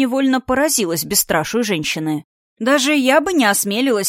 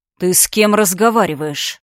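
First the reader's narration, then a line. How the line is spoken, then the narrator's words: Growling dragon. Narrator (Russian): зарычал дракон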